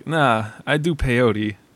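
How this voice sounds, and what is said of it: Imitates another person's voice. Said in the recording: “your Christopher Walken impersonation? ... It's not bad. ... It's terrible.”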